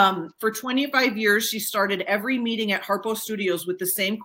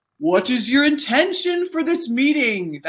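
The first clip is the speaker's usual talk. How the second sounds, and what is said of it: Imitates another person's voice. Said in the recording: “I'm going to impersonate Oprah ... That was my Oprah impersonation.”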